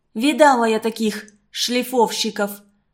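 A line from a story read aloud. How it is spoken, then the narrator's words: Contemptuous, through gritted teeth. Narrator (Russian): Презрительно сощурившись, процедила Люся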